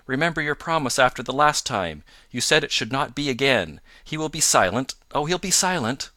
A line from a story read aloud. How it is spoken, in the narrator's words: she cried in English